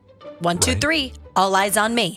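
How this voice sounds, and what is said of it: Stern teacher voice. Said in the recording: “teacher voice”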